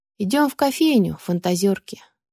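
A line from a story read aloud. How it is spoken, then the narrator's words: Sighing. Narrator (Russian): вздохнула я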